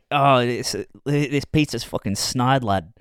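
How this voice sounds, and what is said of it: Imitated Scouse accent. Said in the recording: “He's got the Scouse accent.”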